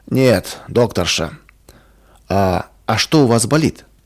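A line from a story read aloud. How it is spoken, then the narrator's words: Angry curt retort. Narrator (Russian): Больной сердито посмотрел на Ваньку и резко бросил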